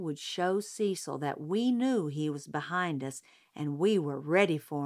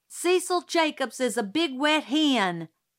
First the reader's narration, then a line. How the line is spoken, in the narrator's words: yelled suddenly